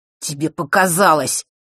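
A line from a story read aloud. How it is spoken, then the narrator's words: Growl. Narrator (Russian): прорычал он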